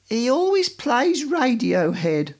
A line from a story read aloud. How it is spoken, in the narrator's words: moaned the woman